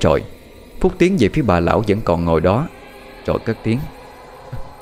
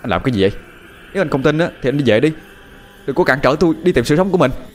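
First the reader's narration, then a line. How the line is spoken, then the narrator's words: Angry shout. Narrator (Vietnamese): Phúc tức giận chột quát lên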